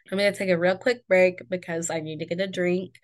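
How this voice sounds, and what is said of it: Rough, off-sounding voice. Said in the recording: “my voice is kind of sounding shitty ... my voice is weird”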